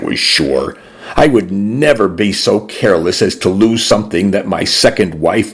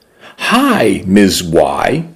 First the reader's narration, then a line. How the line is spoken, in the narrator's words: said brightly